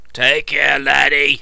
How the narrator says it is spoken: rumbled

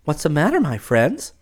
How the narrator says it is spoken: She asked kindly

